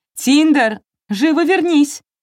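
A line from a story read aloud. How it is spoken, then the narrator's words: Shout. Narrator (Russian): крикнула она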